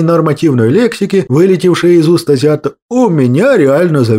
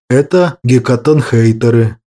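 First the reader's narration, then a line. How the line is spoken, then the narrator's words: Dejected voice. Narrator (Russian): упавшим голосом произнес Кощей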